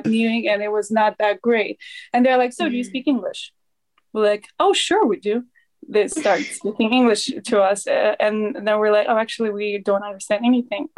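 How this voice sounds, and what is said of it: Slight non-native English accent. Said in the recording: “you have a little bit of an accent, but other than that, not at all”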